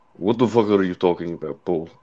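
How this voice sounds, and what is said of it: Put-on Russian accent. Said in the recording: “you trying to do a Russian accent ... Wow, that's good. That's pretty good.”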